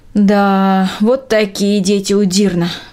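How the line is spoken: Sighing. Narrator (Russian): вздохнула Трина

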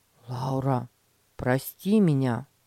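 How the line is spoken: Sincere, after a sigh. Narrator (Russian): Петя вздохнул и искренне сказал

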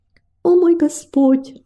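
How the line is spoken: Pleading prayer. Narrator (Russian): взмолилась она

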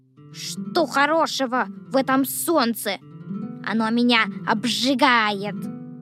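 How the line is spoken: Grumbling worm. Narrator (Russian): ворчал дождевой червяк

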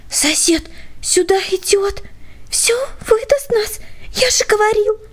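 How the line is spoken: Whisper. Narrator (Russian): прошептал Петя

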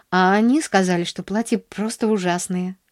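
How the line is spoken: Sighing. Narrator (Russian): вздохнула она

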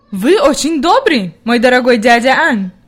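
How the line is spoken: Grandmother's exclamation. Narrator (Russian): воскликнула бабушка

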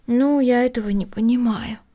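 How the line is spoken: Sighing. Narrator (Russian): вздохнула Эми

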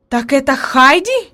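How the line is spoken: Exclaiming. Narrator (Russian): воскликнула наконец она

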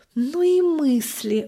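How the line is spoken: Sighing. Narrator (Russian): вздохнула мама

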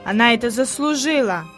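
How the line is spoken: Grumbling. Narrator (Russian): пробурчал Питер

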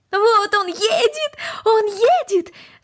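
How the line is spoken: Excited shout. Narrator (Russian): закричала Корнели

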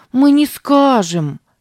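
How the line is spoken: Exclaiming. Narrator (Russian): воскликнула Сара

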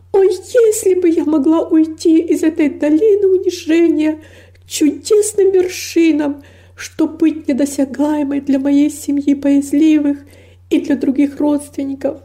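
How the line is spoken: Anguished longing exclamation. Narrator (Russian): воскликнула с невыразимой тоской

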